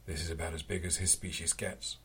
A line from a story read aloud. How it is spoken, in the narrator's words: Rin said